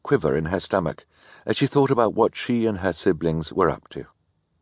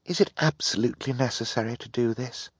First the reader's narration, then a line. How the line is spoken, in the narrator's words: Violet murmured to Klaus